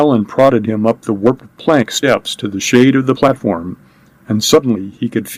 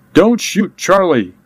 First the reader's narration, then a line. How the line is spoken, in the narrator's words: Kid screamed the words